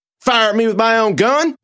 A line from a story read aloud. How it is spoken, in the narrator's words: I yelled